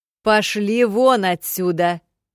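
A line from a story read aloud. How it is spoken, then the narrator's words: Menacing shout. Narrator (Russian): Грозно прикрикнула я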